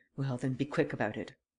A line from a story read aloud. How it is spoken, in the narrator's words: Varin muttered